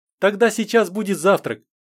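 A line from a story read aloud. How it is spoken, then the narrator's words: Cheerful announcement. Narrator (Russian): весело сообщила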